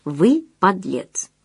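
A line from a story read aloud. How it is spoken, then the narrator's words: Simple and calm. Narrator (Russian): той женщины, которая просто и спокойно сказала ему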